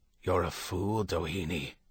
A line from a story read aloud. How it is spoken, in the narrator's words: Kevin whispered